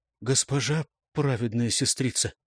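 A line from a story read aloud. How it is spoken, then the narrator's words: Strangled, bewildered voice. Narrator (Russian): Как-то сдавленно, растерянно прозвучал голос Златы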